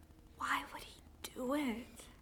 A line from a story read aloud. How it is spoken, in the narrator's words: she whispers